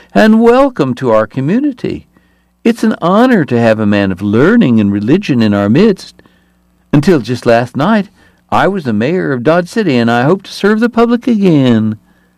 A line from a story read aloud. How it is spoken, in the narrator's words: Hoover said in a startling high voice